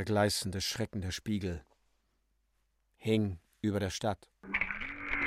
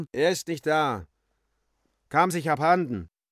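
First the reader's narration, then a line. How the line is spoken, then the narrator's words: Calling from inside. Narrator (German): Er rief von innen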